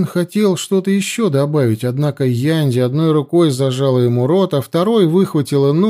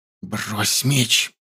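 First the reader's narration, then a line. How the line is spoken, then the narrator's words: Hissed. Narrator (Russian): прошипела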